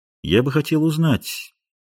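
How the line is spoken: Quiet bishop's question. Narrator (Russian): тихо спросил епископ

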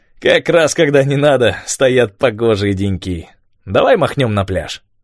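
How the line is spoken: Laughing, cheerful. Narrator (Russian): он рассмеялся и сказал

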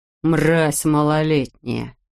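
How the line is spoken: Cursing through gritted teeth. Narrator (Russian): сквозь зубы выругался Грегор

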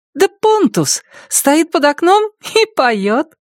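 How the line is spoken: Joyful explanation. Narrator (Russian): радостно объяснила Мия

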